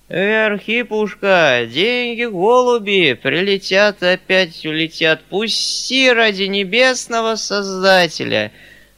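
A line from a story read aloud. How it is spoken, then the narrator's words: Thin quavering pleading. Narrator (Russian): Молил Васильев тонким дребезжащим голосом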